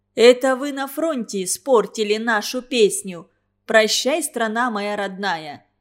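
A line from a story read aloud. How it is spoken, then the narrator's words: Shout. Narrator (Russian): крикнула Алевтина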